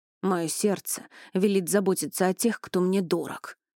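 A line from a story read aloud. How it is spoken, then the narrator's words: Grumbled. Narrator (Russian): проворчал он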